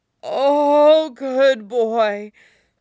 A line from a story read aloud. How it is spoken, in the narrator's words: Bernard whimpers approvingly